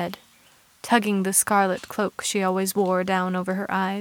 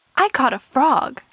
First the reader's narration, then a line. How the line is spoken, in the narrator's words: exclaimed